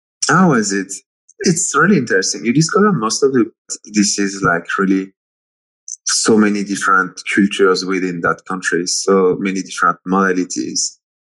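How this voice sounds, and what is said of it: French accent. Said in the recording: “I'm detecting a French accent”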